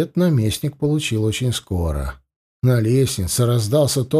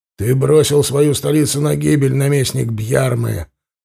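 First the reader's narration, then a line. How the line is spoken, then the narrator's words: Barked, commander's voice. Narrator (Russian): рявкнул воевода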